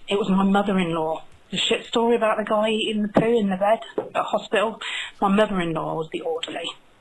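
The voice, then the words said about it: Cockney-like South London English accent. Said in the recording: “that kind of English accent ... sounds almost like a Cockney accent ... or South London or something”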